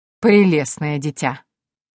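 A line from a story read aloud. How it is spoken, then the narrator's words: Chuckling. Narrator (Russian): хохотнул Мариас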